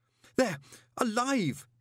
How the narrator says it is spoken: he gasped

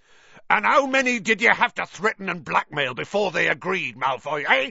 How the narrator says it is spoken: he roared

